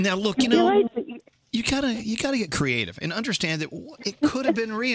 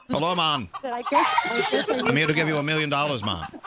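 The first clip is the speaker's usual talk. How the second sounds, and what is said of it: Put-on Jamaican accent. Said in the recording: “Let's say I'm a billionaire Jamaican chicken farmer. ... Yeah, I like this accent.”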